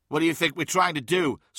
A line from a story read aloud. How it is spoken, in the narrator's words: snapped Fosset to Carr